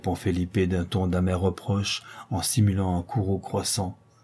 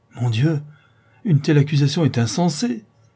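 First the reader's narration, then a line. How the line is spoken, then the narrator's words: Distressed exclamation. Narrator (French): s'écrie Ottavio d'un ton navré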